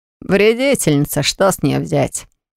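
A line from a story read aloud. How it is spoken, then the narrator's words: Snorted. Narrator (Russian): Хмыкнул Ирвик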